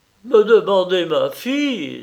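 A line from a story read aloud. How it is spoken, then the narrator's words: Exclaiming. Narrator (French): s'écria-t-il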